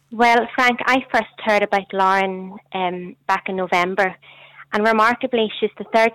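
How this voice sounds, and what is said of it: Rich Newry Northern Irish accent. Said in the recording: “That is a good Newry accent ... That is good, rich, Newry voice”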